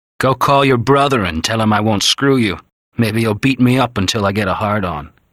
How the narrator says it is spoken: He had sneered at her

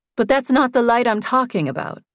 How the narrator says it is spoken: Susan said quickly

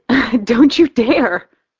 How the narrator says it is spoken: I giggle

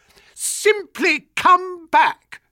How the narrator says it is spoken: screamed

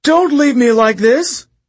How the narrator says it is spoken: Midas wailed

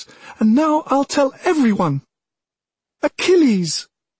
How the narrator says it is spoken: She screamed as if she would force his name through the stout stone walls, up to the gods themselves

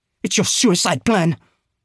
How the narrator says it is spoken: she said angrily

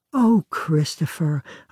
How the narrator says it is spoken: a bride might sigh

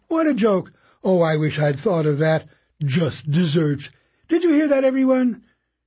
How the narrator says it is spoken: repeating his play on words over and over and laughing afresh each time

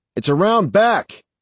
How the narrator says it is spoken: I yelled to Danny

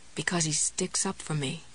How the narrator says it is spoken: she murmured

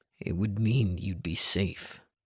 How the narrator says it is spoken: he said, his voice dipping low

